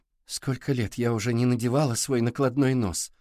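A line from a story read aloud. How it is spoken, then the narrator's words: Sigh. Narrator (Russian): вздохнула Ридли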